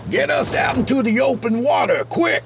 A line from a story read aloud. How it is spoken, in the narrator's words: the lieutenant yelled